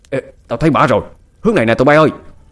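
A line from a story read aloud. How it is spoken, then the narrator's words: Shout. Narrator (Vietnamese): Một tên trong số đó hét lên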